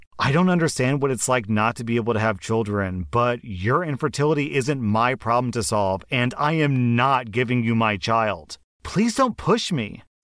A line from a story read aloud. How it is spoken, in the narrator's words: I snapped and said to her